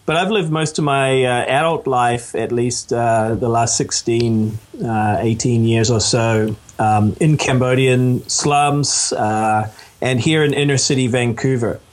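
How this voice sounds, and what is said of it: New Zealand accent. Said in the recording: “I was actually born in Canada, but grew up in New Zealand, so that accounts for the accent.”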